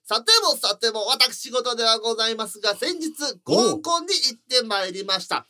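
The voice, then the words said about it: Imitates another person's voice. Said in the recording (Japanese): “末広がりさんの モノマネちょっとラジオでちょっと聞かせて。”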